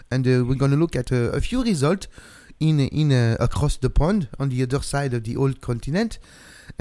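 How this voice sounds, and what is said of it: Put-on French accent. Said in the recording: “So I'm taking my French accent here. ... I'm going to stop that right now.”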